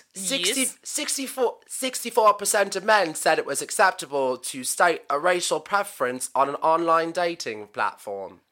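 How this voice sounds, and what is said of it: Put-on Australian accent, somewhat British. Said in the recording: “Shall I read all of this in Australian accent? ... It's a little British.”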